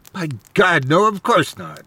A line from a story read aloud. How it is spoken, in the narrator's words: he exclaimed loudly